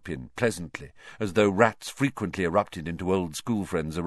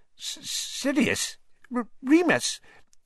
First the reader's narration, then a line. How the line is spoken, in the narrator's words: Even Pettigrew's voice was squeaky